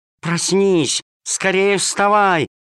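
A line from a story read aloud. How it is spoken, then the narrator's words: Shouting. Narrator (Russian): кричала она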